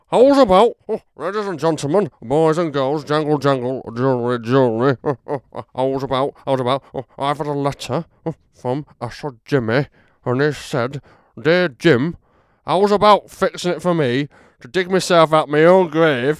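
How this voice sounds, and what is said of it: Imitates another person's voice. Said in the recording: “doing an impression? ... I could do an impression”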